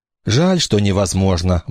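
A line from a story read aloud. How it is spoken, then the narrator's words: Homesick sigh. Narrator (Russian): вздохнул Вася, потому что теперь опять вспомнил о доме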